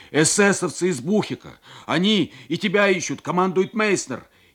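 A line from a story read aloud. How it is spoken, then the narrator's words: Desperate yell. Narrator (Russian): И с отчаянием заорал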